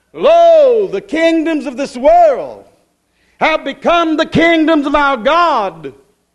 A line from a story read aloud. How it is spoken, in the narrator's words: The voice screaming out